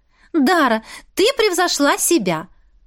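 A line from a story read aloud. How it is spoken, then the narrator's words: Exclamation. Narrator (Russian): воскликнула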